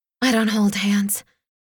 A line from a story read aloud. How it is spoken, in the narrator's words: breathed